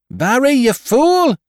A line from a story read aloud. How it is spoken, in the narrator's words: she screamed